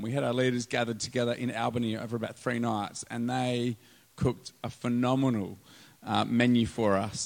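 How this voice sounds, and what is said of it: Strained, failing voice. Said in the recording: “my voice is going a little bit”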